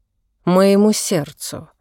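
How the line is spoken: Plain. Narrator (Russian): сказала тетушка

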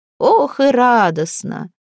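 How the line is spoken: Loud, triumphant, easy laughter. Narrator (Russian): Малфреда захохотала, громко, торжествующе, легко

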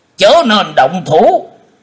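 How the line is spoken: Sharp shout. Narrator (Vietnamese): Khô Lâu đạo trưởng cũng đã quát lên

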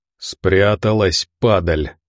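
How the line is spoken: Spiteful through clenched teeth. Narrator (Russian): злобно процедил Тихий

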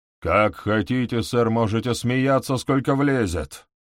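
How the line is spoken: Gloomy. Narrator (Russian): мрачно проговорил Хоскинс

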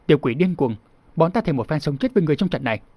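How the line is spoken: Angry shout. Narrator (Vietnamese): Nam Cung Thất nổi giận quát

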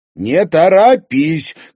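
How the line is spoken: Shouted reply. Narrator (Russian): крикнула в ответ Луиза

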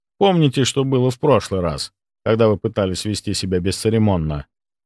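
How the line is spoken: Calm reminder. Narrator (Russian): спокойно напомнил я

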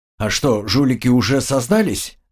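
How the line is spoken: Plain. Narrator (Russian): спросил Артем

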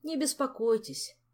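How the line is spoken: Sad consoling. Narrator (Russian): печально утешил его шеф

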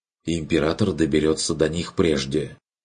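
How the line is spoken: Interjecting. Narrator (Russian): вмешался Эрих

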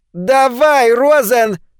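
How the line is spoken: Shrill command. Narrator (Russian): скомандовал Чарли Франсуорт своим визгливым голосом

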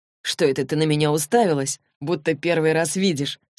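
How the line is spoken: Plain. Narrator (Russian): спросил Саймон

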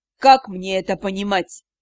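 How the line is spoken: Icy question. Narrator (Russian): ледяным тоном вопросил

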